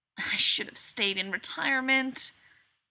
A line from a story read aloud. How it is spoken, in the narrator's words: Rodney says mournfully